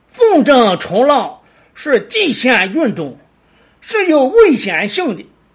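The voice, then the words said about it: Shandong dialect accent. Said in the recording (Chinese): “请容我用从小耳濡目染的山东话来示范一段念白 ... 山东话版”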